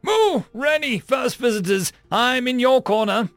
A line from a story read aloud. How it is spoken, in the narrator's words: Dalthea cried